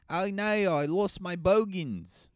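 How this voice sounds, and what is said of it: Mock Australian accent. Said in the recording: “Australian accent ... make fun of that accent all you want”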